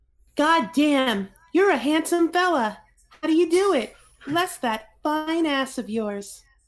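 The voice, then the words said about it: Imitates another person's voice. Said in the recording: “do my best Calfro voice. ... I'm going to try my best to sound like him.”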